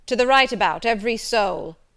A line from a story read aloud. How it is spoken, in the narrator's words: cried the master